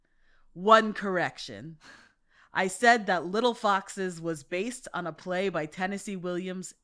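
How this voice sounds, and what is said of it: Imitates another person's accent. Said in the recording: “I'll try to do it in her accent, but I won't be very good at it.”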